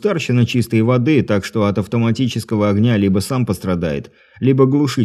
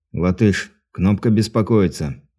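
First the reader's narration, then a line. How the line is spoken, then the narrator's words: Quiet into headset. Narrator (Russian): тихо произнес в гарнитуру Дмитрий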